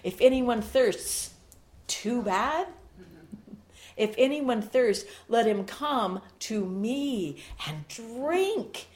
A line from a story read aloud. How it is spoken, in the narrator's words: Jesus stands up and he cries out